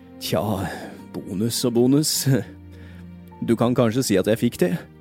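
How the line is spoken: Sad voice. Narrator (Norwegian): sa Cratchit med trist stemme

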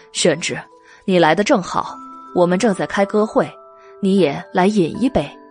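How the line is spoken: Laughing. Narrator (Chinese): 于润之笑着对袁耀说

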